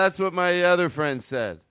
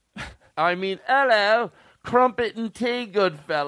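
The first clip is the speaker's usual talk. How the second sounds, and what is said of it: Put-on British accent. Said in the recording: “the authentic accent”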